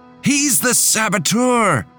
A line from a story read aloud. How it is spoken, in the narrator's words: shouted